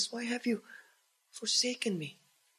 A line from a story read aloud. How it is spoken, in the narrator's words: He cries out